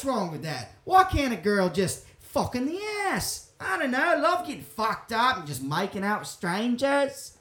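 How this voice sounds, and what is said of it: Put-on Australian accent. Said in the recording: “My accent turned Australian for some reason throughout. ... It's pretty good, though. It's pretty good. It's some of your better work.”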